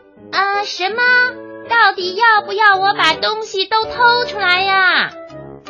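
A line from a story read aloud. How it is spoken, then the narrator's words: Shouting. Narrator (Chinese): 小拇指的叫声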